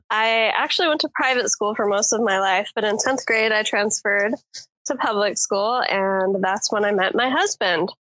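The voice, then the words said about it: Southern American accent. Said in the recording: “I'm a New York girl with a Southern accent”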